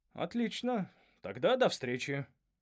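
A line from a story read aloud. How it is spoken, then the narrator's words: Young man, feigned indifference. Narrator (Russian): сказал наш молодой светловолосый директор, деланно равнодушным тоном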